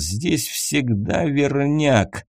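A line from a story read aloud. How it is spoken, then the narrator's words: Godfather growling through teeth. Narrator (Russian): Сквозь зубы почти прорычал крестный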